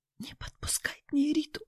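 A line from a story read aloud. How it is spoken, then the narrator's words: Almost whispering. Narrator (Russian): почти зашептала Нина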